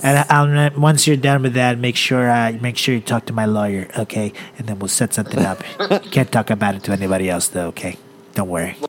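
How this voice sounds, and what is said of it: Donald Trump impression. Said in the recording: “You did your Donald voice. Wait, do a little Donald for us.”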